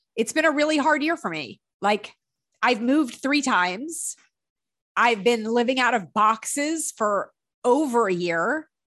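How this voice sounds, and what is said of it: Choked up, near tears. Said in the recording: “all of a sudden just started getting choked up. I don't want to cry”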